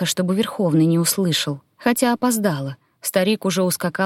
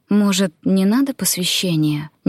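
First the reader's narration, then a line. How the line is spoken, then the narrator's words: Uncertain question. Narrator (Russian): неуверенно спросила у Ангуса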